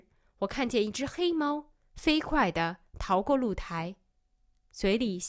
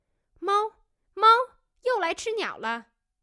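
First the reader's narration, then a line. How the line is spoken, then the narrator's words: Calling out from downstairs. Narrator (Chinese): 李嫂在楼下叫道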